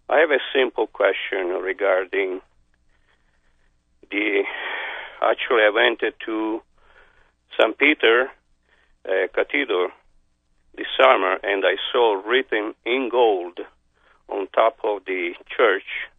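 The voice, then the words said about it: Speaks with an accent. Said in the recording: “Please forgive my accent.”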